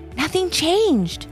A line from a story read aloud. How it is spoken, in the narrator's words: started Ivy in a whisper before she began to shout